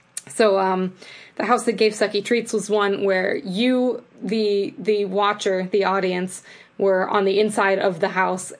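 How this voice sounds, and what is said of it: Strained voice, losing it. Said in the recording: “I'm losing my voice”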